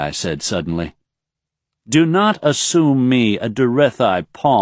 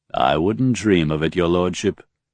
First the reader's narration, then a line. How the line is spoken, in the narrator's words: Raythan said smoothly